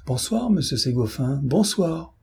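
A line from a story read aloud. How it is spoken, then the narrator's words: Exclaimed. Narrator (French): Dame Robert s'écria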